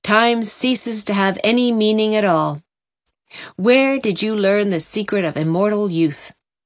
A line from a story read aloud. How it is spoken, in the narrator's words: Christine laughed